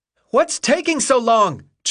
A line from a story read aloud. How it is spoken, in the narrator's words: Chuck cried frantically